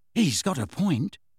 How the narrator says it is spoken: said Ron quietly

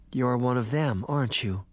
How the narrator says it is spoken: Sabrina said sadly

